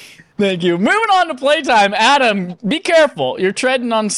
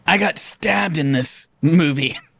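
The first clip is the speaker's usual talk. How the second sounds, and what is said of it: Imitates another person's voice. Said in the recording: “my Michelle Rodriguez impression.”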